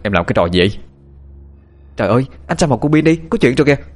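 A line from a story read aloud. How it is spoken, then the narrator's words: Shouting in pain. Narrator (Vietnamese): Anh Nam bị đánh đau thì quát lên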